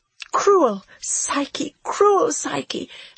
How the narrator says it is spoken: I sobbed

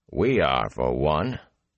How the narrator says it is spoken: the warder said dryly

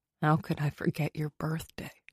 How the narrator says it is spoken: He murmured against my mouth

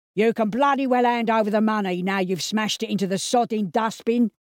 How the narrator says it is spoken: hollered Pete

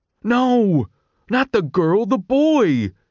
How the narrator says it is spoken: exclaimed Pup

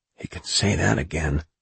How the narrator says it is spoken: Mellis whispered

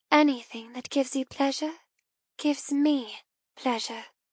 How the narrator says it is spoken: murmur lovingly

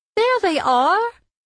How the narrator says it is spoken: cried Oma

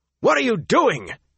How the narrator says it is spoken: he barked, so angry, so shocked

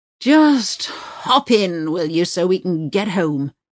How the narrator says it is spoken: he groans

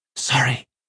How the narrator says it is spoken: he whispered

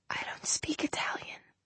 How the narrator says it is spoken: she said, very softly

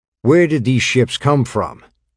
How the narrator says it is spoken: Regis demanded, his voice raised

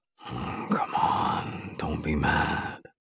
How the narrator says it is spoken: he whispers

